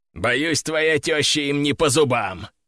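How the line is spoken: Snorting. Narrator (Russian): хмыкнул Седой

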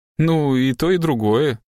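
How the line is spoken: Strained, forced out. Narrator (Russian): выдавил Уолдегрейв

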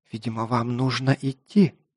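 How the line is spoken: Whisper. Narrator (Russian): прошептала рыжеволосая красавица

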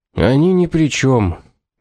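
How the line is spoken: Joyless tone. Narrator (Russian): безрадостным тоном проговорил Доминик

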